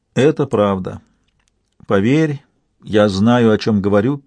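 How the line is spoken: Sad. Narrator (Russian): печально добавила Янтарь

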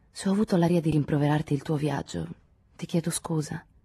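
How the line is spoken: Calmer voice. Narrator (Italian): disse con voce più tranquilla

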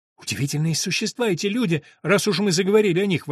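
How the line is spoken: Exclamation. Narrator (Russian): воскликнул я

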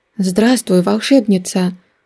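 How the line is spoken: Timid call. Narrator (Russian): Робко позвали откуда-то сбоку

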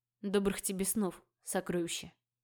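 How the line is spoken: Whisper. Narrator (Russian): прошептал он

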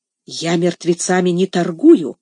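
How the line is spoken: Sullen mutter. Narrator (Russian): угрюмо буркнул Легри

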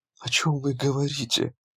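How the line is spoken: Strained, forced out. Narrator (Russian): Наконец удалось выдавить ей

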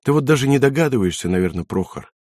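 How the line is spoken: Said quietly. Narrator (Russian): тихо произнесла

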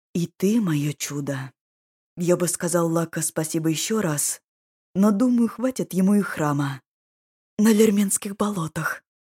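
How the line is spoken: Whispered. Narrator (Russian): прошептала Дора

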